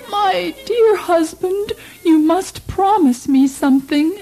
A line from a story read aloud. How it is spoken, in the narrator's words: when it came time for the queen to die, she begged the king